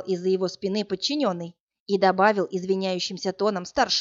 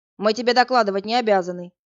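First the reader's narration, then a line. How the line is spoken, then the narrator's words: Barked. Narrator (Russian): рявкнул тот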